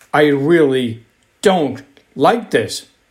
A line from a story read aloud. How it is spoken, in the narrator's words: shouted Andrew